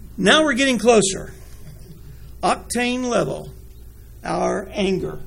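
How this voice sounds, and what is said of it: Usual voice. Nothing is said of it.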